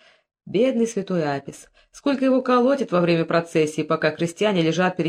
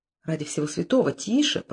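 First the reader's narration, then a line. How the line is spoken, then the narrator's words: Frightened whisper. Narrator (Russian): прошептал Тутмос и испуганно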